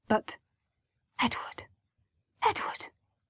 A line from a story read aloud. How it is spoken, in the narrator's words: his mother hissed at him, and in a voice that was a shade too harsh